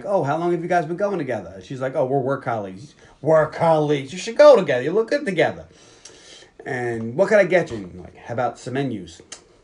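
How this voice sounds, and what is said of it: Virginia accent. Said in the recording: “you're doing her accent... That's just my accent... That's my real accent... I have my regular Virginia accent”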